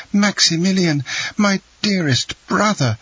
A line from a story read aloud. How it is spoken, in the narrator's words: she cried